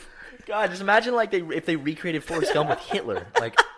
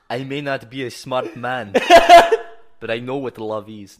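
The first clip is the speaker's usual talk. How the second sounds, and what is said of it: Put-on Russian-sounding accent. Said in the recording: “Why am I doing a Russian accent? ... Is that your Hitler accent? ... I just don't know how to do a German accent.”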